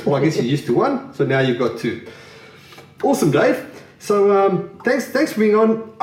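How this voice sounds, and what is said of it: South African accent. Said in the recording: “a South African guest on the podcast other than myself ... So now there's two accents that people won't understand ... I hope you can decipher the two accents.”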